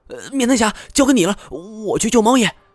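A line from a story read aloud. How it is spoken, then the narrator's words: Shouting. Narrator (Chinese): 他又冲太前喊道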